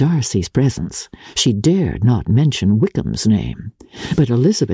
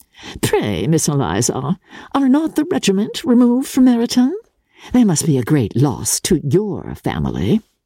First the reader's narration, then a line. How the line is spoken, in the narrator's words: Miss Bingley saw all this likewise, and, in the imprudence of anger, took the first opportunity of saying, with sneering civility